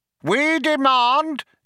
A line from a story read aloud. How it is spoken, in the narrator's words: yelled Vroom Fondle